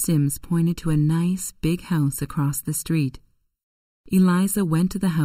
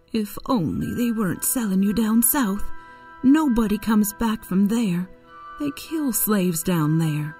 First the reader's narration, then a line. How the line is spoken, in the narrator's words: Aunt Chloe cried